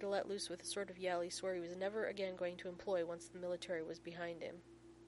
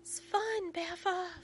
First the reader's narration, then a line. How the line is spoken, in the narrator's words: Finn yells back